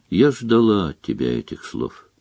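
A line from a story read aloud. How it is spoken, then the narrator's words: Said sadly. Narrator (Russian): Гермиона лишь печально сказала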